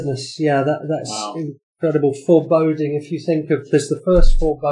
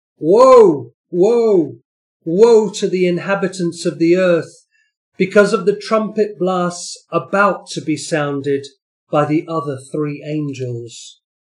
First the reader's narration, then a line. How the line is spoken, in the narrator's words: an eagle that was flying in mid-air call out in a loud voice